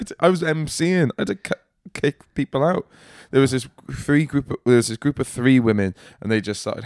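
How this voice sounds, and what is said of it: Usual voice. Nothing is said of it.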